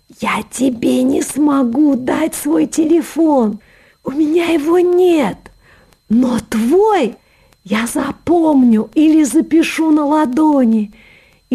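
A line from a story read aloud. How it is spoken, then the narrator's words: Exclaiming, then passionate whisper. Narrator (Russian): воскликнул он, и страстно зашептал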